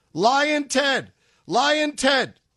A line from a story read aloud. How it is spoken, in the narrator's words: the Rhodes scholar directly in front of Ted started shouting at him inches from his face